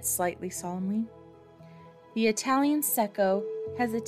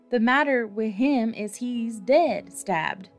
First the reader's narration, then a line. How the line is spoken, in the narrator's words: replied Secco in a hollow voice